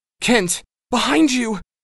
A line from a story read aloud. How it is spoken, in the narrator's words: Sparks shrieks